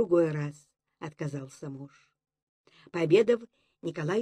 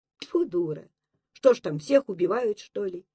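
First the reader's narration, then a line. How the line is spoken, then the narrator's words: Angry reply. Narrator (Russian): сердито отозвался Зимок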